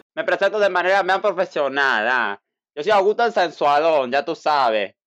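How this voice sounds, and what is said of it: Put-on altered Spanish accent. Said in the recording (Spanish): “El acento un poco cambiado, ¿eh? Tienes un acento un poco cambiado hoy ... yo soy medio de acento variado”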